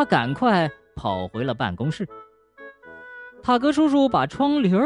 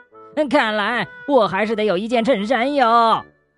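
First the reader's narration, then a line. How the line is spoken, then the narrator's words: Frightened shout. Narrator (Chinese): 塔格叔叔吓得大叫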